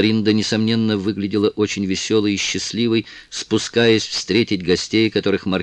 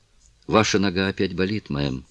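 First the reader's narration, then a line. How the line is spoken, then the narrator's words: Plain. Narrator (Russian): спросила девушка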